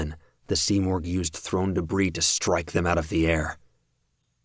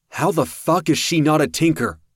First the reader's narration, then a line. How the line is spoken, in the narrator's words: Kraus shouted